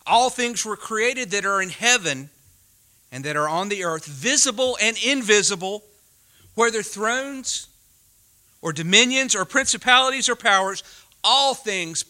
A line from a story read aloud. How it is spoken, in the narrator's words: Paul says again